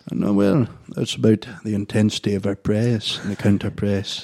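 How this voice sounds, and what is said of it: Brendan Rodgers impression. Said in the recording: “Can you do your Brendan Rodgers one ... I wasn't as good as last time. ... That was pretty good, though.”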